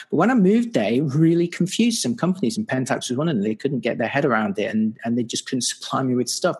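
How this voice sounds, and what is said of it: British accent. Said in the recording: “I'm obviously British. You probably recognize the accent.”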